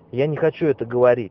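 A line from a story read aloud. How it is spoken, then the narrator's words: Shouted. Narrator (Russian): крикнул Энди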